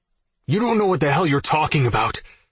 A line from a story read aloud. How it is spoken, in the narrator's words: I snapped